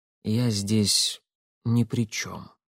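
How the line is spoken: Quiet. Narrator (Russian): наконец тихо произнес он

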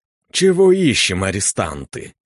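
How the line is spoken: Brisk. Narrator (Russian): Бодро спросил мой напарник

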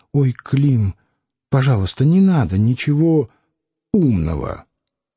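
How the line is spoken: Quiet request. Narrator (Russian): Варвара попросила тихонько

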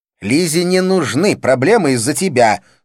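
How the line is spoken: Angry. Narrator (Russian): сказала она сердито

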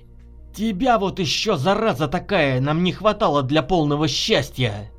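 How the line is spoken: Venomous hissing owl. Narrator (Russian): Филин погодючье зашипел на друзей

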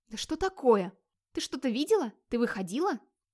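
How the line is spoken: Startled whisper. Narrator (Russian): опомнившись, прошептала Ингерид

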